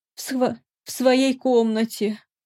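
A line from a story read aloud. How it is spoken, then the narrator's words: Sobbing. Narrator (Russian): всхлипнула Лута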